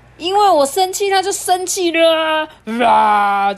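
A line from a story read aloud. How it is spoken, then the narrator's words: Two roaring. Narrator (Chinese): 两个 大吼起来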